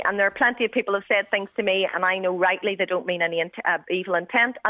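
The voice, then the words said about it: Northern Irish accent. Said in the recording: “a Northern Irish woman born and raised here ... my accent”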